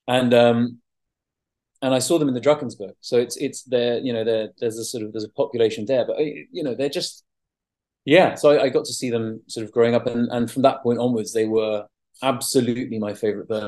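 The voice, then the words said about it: Mixed South African and English accent. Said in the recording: “I grew up between the UK and South Africa. I've got an Afrikaans mum, English dad, very confused accent”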